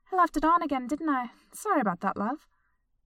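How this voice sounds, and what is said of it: Less refined accent. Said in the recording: “in a slightly less refined accent than she had so far used”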